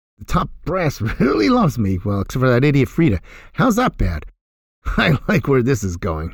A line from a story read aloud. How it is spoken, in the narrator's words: laughed